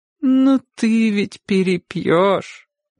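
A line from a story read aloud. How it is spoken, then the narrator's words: Sad reminder. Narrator (Russian): грустно напомнила ему тетя Катя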